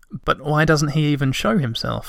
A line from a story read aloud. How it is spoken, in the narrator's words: asked Moomintroll